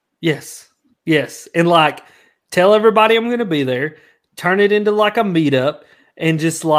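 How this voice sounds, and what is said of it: Usual voice. Nothing is said of it.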